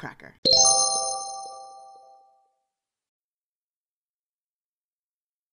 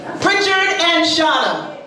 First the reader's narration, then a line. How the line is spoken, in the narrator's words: my mother yells